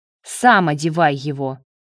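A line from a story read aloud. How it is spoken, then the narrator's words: Snapped. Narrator (Russian): огрызнулся Марат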